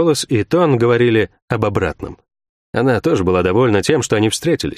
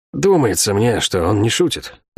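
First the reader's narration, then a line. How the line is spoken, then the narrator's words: Thoughtful speech. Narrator (Russian): задумчиво произнес Мильвио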